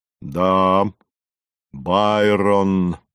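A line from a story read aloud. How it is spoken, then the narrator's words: Pleased deep bass. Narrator (Russian): пробасил Горький, довольный произведенным эффектом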